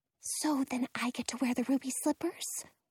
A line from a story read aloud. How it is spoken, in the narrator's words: whispers